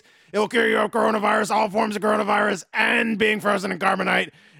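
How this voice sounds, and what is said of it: Deliberately bad impression voice. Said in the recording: “5-minute awful, terrible impression rant ... They are terrible impressions”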